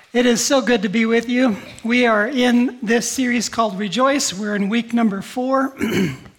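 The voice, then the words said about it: Voice not fully recovered. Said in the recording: “I'm about 70% back, and you can hear it in my voice.”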